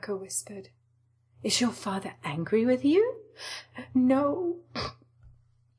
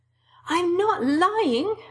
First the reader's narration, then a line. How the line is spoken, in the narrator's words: Hinako cried